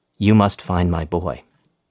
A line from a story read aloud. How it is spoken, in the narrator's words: she said, in a trembling voice